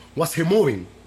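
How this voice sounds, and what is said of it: Put-on Dominican accent. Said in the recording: “In my Dominican accent”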